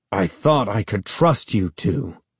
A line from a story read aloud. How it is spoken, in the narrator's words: he said, talking through gritted teeth